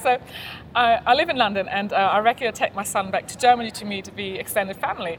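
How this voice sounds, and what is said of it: German accent mixed with British. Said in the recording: “she's German, but she has a British accent. And it's this very weird combination ... I don't know whether I'm listening to a German accent or an English accent ... a bit of both”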